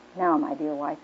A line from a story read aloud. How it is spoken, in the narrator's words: he said